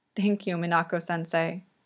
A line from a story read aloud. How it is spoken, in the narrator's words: Yuri murmurs into her sweater